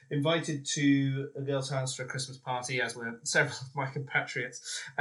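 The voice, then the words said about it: Posh English accent. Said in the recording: “I know I sound posh”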